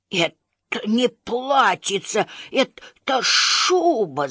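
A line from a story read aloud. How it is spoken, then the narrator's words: Hissing. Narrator (Russian): зашипел Беззубик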